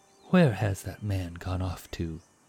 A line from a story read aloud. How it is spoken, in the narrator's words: he whispered, his tone anxious and concerned